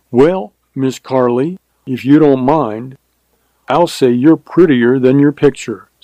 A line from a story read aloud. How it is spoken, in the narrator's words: said Hutter